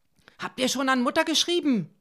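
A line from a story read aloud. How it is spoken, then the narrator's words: Called out. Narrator (German): rief sie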